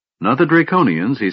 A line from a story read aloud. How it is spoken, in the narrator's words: he said hastily